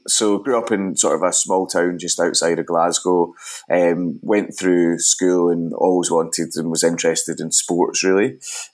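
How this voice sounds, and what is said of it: Scottish Glasgow accent. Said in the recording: “you've got a bit of an accent ... I grew up in Glasgow, Scotland. Hopefully people can understand that accent”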